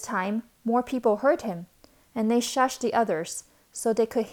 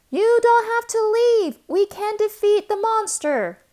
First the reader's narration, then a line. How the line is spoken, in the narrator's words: The newcomer shouted on top of his lungs and repeated